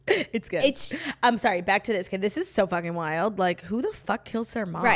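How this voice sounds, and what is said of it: Usual voice. Nothing is said of it.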